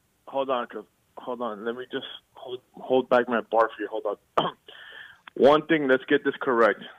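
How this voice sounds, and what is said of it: Radio announcer voice. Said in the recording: “You came with your announcer voice today”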